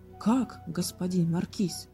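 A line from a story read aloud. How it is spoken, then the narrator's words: Exclaimed. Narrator (Russian): воскликнул король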